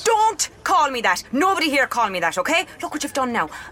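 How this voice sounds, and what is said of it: Irish accent. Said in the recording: “Ireland. Can you not tell from my accent?”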